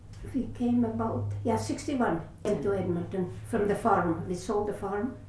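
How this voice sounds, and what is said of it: Latvian-accented English. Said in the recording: “That's why we got the accent.”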